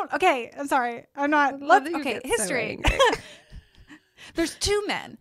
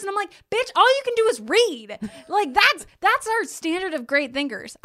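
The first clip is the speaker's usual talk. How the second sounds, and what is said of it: Shouting. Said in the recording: “I'm shouting.”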